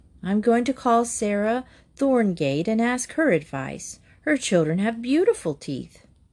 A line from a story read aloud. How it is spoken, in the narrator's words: She sighed to herself